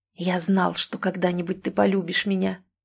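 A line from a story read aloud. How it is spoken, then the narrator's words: Whispered in ear. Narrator (Russian): прошептал Эрик мне на ухо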